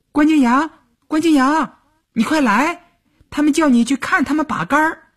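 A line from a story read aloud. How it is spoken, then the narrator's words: Calling through a window. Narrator (Chinese): 他蹦蹦跳跳的踮着脚尖儿朝窗户里喊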